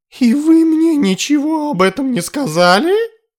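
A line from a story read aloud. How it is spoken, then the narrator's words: Desperate exclamation. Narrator (Russian): воскликнул Тарталет, в отчаянии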